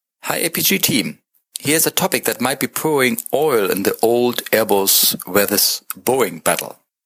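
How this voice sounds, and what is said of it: Strong German accent. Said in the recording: “please pardon my strong German accent.”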